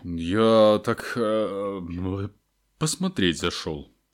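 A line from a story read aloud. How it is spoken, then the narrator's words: Mumbling. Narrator (Russian): пробормотал Хагрид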